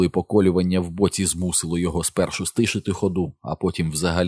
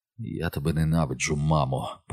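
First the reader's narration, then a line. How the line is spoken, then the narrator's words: Whisper. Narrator (Ukrainian): прошепотів Боббі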